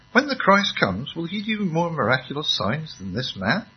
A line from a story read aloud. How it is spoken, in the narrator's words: the crowd whispering